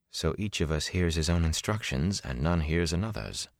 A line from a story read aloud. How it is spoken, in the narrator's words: the man who called himself Bors muttered in frustration